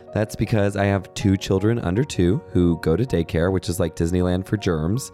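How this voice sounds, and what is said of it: Raspy, slightly hoarse voice. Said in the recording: “my voice is a little raspy ... So we're all a little under the weather at my house right now. You'll hear raspiness in my voice.”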